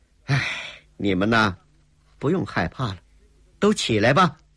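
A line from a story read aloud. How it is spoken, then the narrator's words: Gentle sighing reassurance. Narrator (Chinese): 郭彩玲……面色转为和善，又轻叹一声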